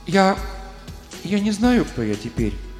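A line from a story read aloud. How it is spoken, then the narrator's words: Timid. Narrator (Russian): робко проговорила она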